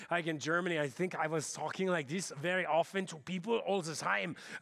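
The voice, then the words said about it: German accent like Arnold Schwarzenegger. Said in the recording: “sound a little bit more like Arnold Schwarzenegger there”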